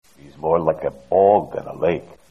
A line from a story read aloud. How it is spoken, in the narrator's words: Voznesensky grumbled